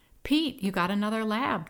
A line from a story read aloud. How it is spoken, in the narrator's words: Deidre exclaimed